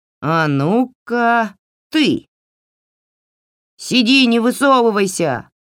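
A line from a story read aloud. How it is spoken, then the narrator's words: Shouted. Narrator (Russian): выкрикнул Разява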